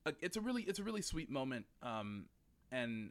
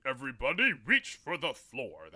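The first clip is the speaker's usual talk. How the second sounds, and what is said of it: Deep-voiced John Wayne impression. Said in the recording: “how is my John Wayne impression? ... that really deep voice”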